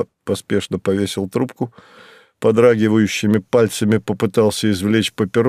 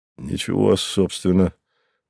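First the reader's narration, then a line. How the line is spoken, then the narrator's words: Hesitant mutter. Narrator (Russian): пробормотал он, не решаясь сказать правду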